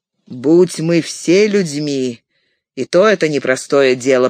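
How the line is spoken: Grumbling. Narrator (Russian): проворчал Боромир

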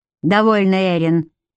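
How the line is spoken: Commanding. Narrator (Russian): велел Гарик

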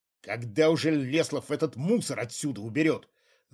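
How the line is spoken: Angry dog-like growl. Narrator (Russian): зарычал не хуже собаки старший следователь, споткнувшись о выпавшую из кучи ножку то ли стула, то ли стола

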